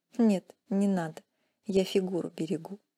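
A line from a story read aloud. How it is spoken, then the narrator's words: Snorting. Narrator (Russian): фыркнула искорка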